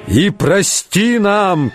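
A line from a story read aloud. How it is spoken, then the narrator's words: Shouting. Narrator (Russian): кричал он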